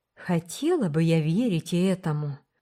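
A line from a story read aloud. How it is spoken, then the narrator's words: Sigh. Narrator (Russian): вздохнула Рила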